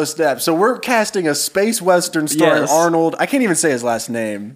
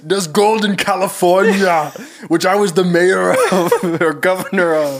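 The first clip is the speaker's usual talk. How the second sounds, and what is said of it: Poor impression of an Austrian-accented actor. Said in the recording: “I do a terrible Arnold impression,”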